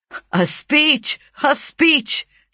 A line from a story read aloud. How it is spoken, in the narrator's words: shouted we